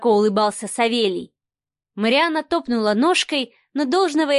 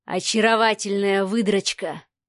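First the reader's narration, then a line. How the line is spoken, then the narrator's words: Hoarse mutter. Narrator (Russian): хрипло пробормотал Савва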